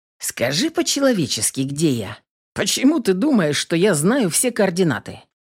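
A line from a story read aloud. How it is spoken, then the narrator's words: Mock-indignant, joking voice. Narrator (Russian): Возмутился Рик шутливым голосом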